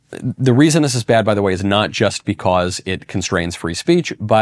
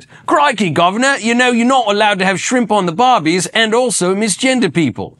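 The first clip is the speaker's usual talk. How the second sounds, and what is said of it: Weak put-on Australian accent. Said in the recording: “my accent's a little weak these days ... that was a little Australian”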